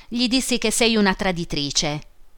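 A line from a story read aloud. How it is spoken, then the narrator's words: Laughing. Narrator (Italian): disse egli ridendo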